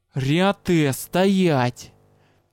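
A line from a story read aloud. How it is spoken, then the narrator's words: Growled command. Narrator (Russian): леди Митас, и она рыкнула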